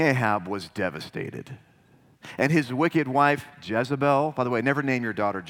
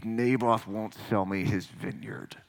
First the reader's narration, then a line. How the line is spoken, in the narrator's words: he said through clenched teeth